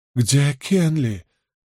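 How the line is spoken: Trembling voice, woman. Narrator (Russian): дрожащим голосом спрашивала госпожа Ахан

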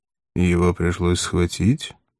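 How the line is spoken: Gloomy question. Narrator (Russian): мрачно спросил Пилат

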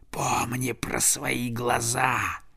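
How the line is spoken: Crow hissing in ear. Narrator (Russian): самый большой из стаи ворон, вероятно, их хёвдинг, прошипел ему прямо в ухо

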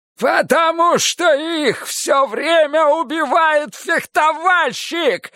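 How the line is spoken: Yelled. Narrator (Russian): заорал Киш

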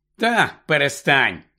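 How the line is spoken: Grumble. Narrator (Ukrainian): буркнув Гаррі

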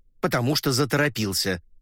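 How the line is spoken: Sharp reply. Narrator (Russian): резко ответил Ламонт

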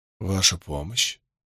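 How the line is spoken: Tired muttering. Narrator (Russian): устало пробормотал Ранд

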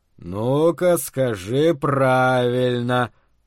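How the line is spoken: Singsong. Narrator (Russian): говорил нараспев

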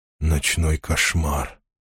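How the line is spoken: Barely audible strongman. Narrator (Russian): силач говорил еле слышно

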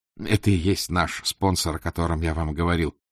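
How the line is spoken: Undertone. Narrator (Russian): вполголоса объяснил он Вале

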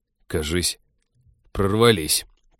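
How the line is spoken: Muttering. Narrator (Russian): пробормотал Тед

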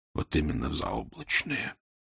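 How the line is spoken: Whisper. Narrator (Russian): прошептал Фандорин

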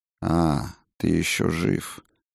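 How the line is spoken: Flat dry matter-of-fact voice. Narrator (Russian): бесцветным и сухим голосом произнес он, не удивляясь, не издеваясь, а просто отмечая для себя этот факт

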